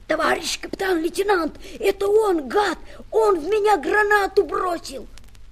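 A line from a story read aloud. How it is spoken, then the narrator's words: Furious hoarse rasp. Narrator (Russian): Неверов яростно прохрипел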